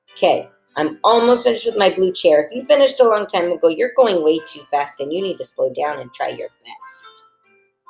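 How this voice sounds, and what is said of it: Slightly low, under-the-weather voice. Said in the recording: “I'm kind of getting over it, which is why my voice is a little bit low.”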